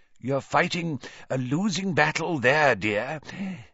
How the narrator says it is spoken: said his mirror in a wheezy voice

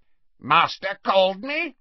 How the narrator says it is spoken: croaked Creature

